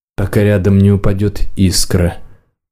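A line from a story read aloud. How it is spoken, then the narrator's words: Mage's mutter. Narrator (Russian): пробормотал маг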